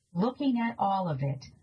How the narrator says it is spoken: a kid giggled

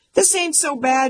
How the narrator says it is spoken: shouted

